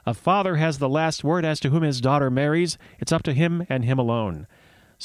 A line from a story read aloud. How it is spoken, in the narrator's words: called out